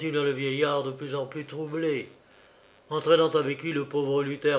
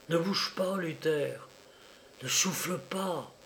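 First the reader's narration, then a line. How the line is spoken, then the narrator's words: Sudden murmur. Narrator (French): murmura-t-il soudain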